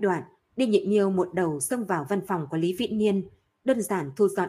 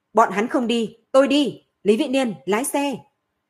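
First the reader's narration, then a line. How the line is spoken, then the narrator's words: Sudden loud shout. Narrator (Vietnamese): Đinh Nhị Miêu bỗng nhiên hét lớn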